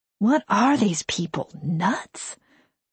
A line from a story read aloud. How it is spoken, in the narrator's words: I mutter